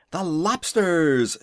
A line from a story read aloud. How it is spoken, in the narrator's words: shouted the griffin with a bound into the air